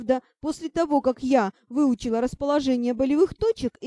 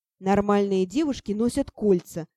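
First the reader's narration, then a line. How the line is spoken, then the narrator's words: Silent sighing thought. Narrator (Russian): мысленно вздохнул Ти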